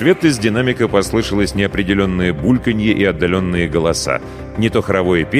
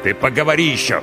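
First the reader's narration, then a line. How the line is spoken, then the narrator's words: Snapping retort. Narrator (Russian): огрызнулся мой новый покровитель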